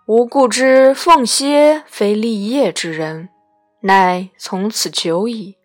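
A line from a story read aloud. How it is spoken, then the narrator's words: Slow, pondering sigh. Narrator (Chinese): 晃沉吟良久，乃蔚然叹曰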